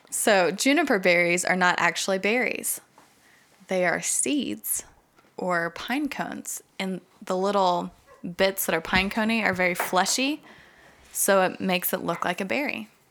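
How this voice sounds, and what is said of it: Smooth NPR-style radio announcer voice. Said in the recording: “you're nailing the NPR ... This is my radio voice.”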